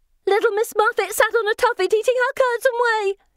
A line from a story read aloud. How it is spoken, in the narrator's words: she shouts